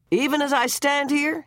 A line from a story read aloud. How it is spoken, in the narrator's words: he bellowed